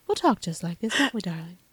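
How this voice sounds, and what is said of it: Higher-pitched British-Southern lilt. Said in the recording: “Not quite Southern, but not Southern. Kind of British. A little lilt. ... Higher, it's like a British Southern higher ... Higher than your normal affect ... like you're just a little loopy”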